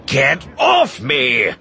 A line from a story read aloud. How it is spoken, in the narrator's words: Pressick shouted, struggling to shake him off